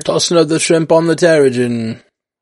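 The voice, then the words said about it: Poor fake Australian accent. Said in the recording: “that wasn't a very good. That wasn't a very good Australian accent.”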